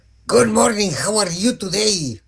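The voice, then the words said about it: English with a Mexican accent. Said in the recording (Spanish): “Hoy ando hablando inglés bien. Mira, con un acento francés, no. Italiano tampoco. Mexicano.”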